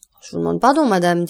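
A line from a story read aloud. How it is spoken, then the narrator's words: Cold. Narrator (French): dit froidement Debray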